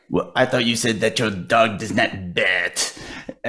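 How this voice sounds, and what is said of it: Imitates another person's accent. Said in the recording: “such a great Peter Sellers accent”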